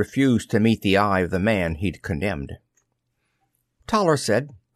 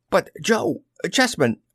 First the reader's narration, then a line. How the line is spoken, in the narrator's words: Barry Watson blurted